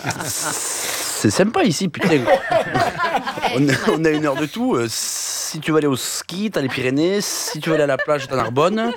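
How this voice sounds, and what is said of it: Put-on southern French accent. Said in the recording (French): “qu'il ait l'accent du sud ... C'est pas mal pour l'accent de chez moi ... c'est l'accent cobra que j'imite ... Accent du sud”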